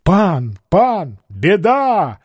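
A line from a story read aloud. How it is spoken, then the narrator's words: Shouting. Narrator (Russian): закричал он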